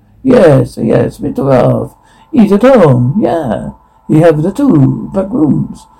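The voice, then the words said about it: Put-on Italian accent. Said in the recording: “Italian accent”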